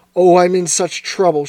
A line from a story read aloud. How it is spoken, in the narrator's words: she cried